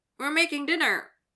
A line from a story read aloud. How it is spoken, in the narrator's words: Dylan blurts out, red from either the heat of the kitchen or embarrassment